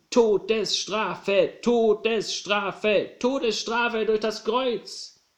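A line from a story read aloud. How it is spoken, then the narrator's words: Crowd shouting in unison. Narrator (German): Da schrien alle wie aus einem Mund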